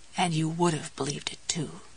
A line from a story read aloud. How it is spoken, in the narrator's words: Jessie said softly